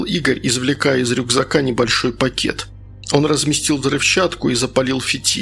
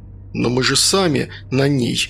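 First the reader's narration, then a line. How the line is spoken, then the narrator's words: Timid objection. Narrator (Russian): робко возразил Садко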